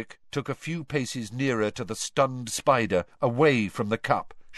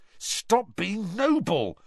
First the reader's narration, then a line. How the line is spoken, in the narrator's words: said Harry irritably